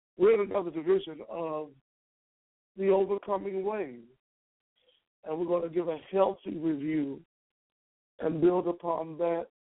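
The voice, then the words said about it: Strained, recovering voice. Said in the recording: “My voice is recovering. ... I just am having a little challenge with my voice”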